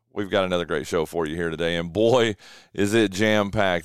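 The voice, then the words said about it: Slightly rough, hoarse voice. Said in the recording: “Man, my voice ... you might be able to hear in my voice a little bit, a little rough this morning.”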